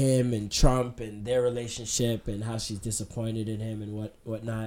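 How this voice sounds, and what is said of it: Usual voice. Nothing is said of it.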